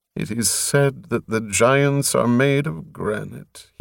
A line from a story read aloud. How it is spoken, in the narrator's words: he mumbled